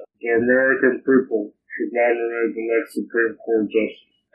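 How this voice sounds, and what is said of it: Mitch McConnell impression. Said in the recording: “my Mitch McConnell impression”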